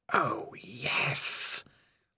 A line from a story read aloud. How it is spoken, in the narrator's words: whispered the voice of Spider